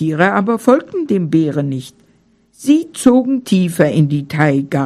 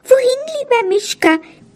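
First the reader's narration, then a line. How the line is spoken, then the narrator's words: Squeaky mouse voice. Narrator (German): piepste die Haselmaus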